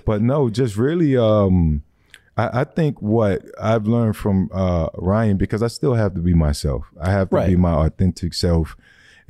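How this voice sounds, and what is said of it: Deep, low, smooth voice. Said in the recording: “you low key got like a little Morgan Freeman Jr. voice going on... my sexy voice... it's low key Morgan Freeman like a little bit”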